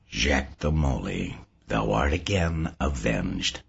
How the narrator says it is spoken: murmured to himself

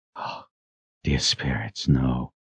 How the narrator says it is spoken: Richard whispered

